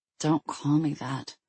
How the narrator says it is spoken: she muttered into the bowl

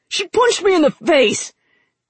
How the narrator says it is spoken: Naja screeched

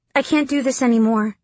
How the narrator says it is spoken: Dylan blurted

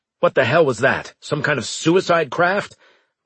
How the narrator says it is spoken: Braga barked

